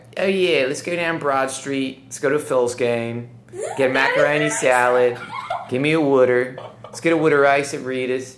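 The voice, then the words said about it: Put-on Philly accent. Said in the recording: “I love to go in a weird accent. I love the Philly accent, right? And I don't have a Philly accent”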